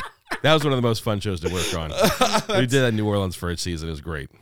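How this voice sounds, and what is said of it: Usual voice. Nothing is said of it.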